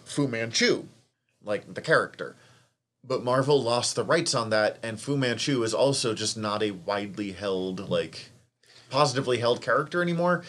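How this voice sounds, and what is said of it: Strong Montana accent. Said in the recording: “my Montana accent kicking in here really hard because I can hear it”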